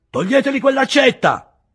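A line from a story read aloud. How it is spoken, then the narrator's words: Judge yelling. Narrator (Italian): urlò il giudice istruttore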